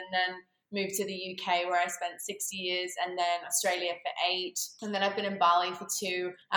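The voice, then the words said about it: Australian accent. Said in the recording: “I definitely have an Australian accent though ... I thought you're Australian”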